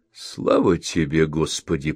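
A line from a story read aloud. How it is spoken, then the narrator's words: Muttered under breath. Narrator (Russian): пробормотала себе под нос Ашли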